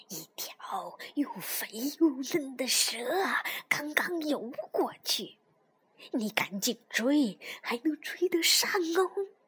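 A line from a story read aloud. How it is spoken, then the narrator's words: Chuckling low, grandfather. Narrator (Chinese): 嘿嘿嘿， 爷爷低声说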